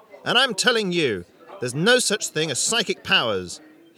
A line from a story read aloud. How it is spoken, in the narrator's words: shouting